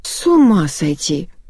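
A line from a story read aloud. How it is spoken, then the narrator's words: Breathless exclamation. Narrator (Russian): выдохнула Ирина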